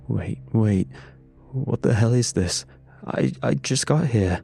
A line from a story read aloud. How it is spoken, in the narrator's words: Reed stammered, voice cracking under the weight of sheer panic